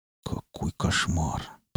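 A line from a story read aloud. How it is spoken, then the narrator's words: Muttered. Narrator (Russian): пробормотал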